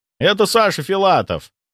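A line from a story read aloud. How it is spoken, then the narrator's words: Shout. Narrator (Russian): выкрикнул кто-то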